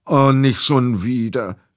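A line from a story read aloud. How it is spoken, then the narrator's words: Groaning. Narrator (German): stöhnte Theo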